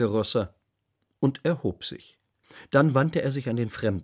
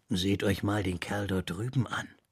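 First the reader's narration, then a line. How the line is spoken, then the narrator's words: Quiet. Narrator (German): sagte Rosser leise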